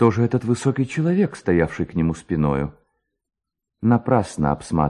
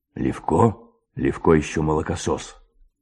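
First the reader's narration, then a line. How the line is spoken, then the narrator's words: Hoarse undertone. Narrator (Russian): говорил хриплый вполголоса высокий человек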